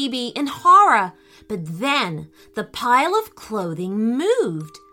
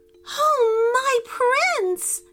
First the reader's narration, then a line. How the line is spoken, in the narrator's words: cried the princess